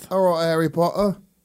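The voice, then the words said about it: Put-on English accent. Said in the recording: “an English accent ... That's not bad.”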